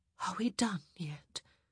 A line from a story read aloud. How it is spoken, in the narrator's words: She whispered